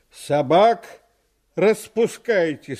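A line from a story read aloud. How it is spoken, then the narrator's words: Stern. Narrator (Russian): сказал милиционер, строго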